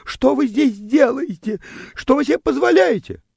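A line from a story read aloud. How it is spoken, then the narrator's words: Startled squeals, indignant questioning. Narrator (Russian): Девочка взвизгивала от неожиданности и возмущенно вопрошала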